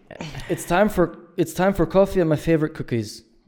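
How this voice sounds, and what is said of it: Put-on Scottish accent. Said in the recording (German): “sorry für meinen schottischen Akzent”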